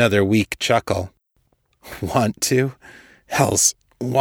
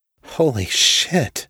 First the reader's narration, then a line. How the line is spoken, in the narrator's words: Kate murmured